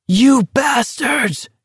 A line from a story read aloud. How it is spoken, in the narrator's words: Garrity screamed with all his force